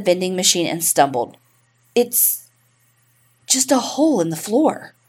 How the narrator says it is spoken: she said, but her voice quivered

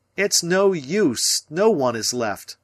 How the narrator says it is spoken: I cried

